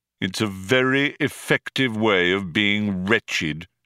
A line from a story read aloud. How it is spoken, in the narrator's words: said Marvin